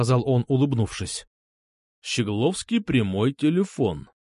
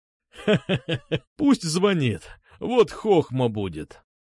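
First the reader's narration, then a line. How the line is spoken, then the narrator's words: Laughing. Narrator (Russian): засмеялся Сергеев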